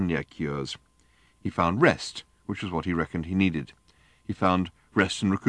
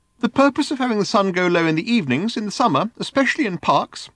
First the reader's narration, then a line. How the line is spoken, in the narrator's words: said the voice earnestly